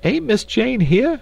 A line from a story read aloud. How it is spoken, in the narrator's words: cried Esmeralda